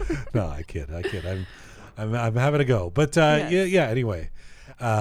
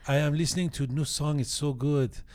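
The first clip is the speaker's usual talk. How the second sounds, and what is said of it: Put-on Persian accent. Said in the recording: “that's a Persian accent I'm doing.”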